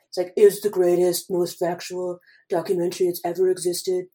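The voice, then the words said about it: Imitates another person's voice. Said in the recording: “best Trump impression”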